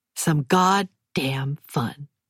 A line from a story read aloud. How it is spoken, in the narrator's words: Maisie says